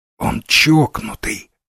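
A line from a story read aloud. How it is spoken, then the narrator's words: Whisper. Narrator (Russian): зашептал Дивайн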